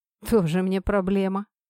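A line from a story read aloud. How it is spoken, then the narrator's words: Scoffing young man. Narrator (Russian): фыркнул парень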